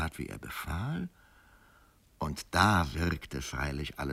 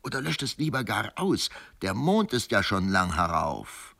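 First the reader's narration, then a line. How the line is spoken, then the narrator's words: Calling out. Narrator (German): rief mir der Feldmesser zu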